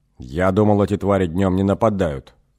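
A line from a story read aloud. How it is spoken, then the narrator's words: Angry. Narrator (Russian): зло сказал Эгин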